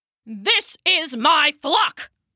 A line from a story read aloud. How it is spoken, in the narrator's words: he growled